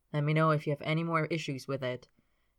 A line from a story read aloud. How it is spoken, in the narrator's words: he says in his horrible, boring voice